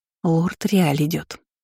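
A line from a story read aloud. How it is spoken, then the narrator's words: Princess whispering. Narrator (Russian): шепнула принцесса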